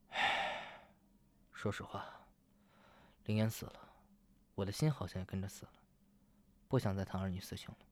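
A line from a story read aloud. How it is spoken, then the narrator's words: Sighing. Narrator (Chinese): 陆和欢叹了口气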